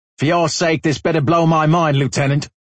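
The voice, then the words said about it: Fast, near-yelling Australian accent. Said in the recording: “He spoke quickly, with an Australian accent, his volume just below a yell.”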